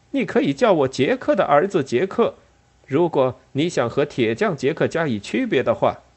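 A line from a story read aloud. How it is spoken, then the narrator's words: Loud voice. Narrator (Chinese): 他高声说道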